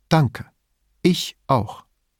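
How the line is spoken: Calm. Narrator (German): sagte ruhig

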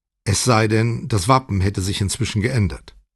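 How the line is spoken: Calm answer. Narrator (German): antwortete Brunetti ruhig

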